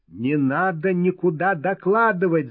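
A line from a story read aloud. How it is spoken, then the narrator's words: Shouting. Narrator (Russian): закричал Сергеев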